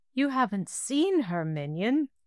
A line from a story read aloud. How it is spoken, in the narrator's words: Dael continued brightly